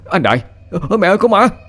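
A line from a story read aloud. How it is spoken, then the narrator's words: Terrified shriek. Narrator (Vietnamese): Nhận ra người ấy là ai, tôi rú lên kinh hãi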